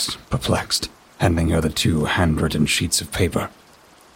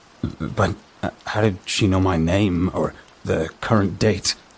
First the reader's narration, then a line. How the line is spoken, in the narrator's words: I stammered, the fear creeping back into my voice